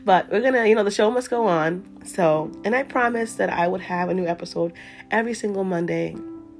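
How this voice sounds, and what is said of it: Voice sounding sick with cold. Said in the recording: “I'm actually feeling under the weather today. I got a cold last week... my voice may sound a little different today and it's because I'm sick.”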